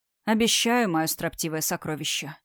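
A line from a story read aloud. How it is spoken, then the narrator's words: Very quiet. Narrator (Russian): совсем тихо произнес Амир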